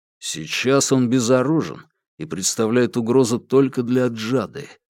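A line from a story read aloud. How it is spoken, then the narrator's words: Quiet reply. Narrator (Russian): тихо ответил Уваров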